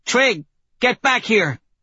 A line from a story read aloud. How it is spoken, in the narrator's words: she shouts